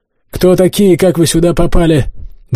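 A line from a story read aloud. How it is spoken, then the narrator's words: Leader shouting. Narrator (Russian): выкрикнул главный из десятка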